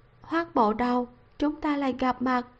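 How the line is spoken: Sighing, soft smile. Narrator (Vietnamese): Lâu Tự Ngọc thở dài một hơi, khẽ cười với hắn, nói

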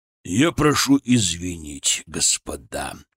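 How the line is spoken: Hoarse. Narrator (Russian): хрипло сказал он

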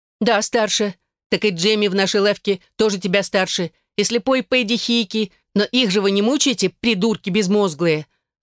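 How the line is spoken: Yelled. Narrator (Russian): заорала Эшлинг

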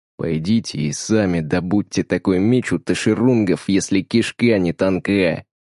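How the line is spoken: Hiss. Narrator (Russian): Марвин прошипел

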